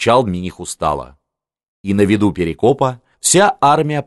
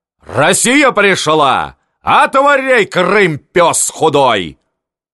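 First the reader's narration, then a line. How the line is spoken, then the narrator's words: Barked. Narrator (Russian): Бобриков рявкнул на Мурзу знатного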